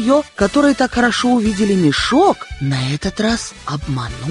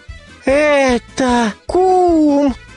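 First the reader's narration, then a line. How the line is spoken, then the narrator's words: Cried out. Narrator (Russian): вскрикнул кум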